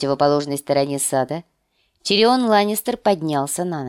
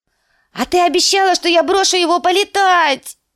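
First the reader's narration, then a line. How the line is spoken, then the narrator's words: Shaking wail. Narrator (Russian): завопил лорд Орлиного гнезда, начиная трястись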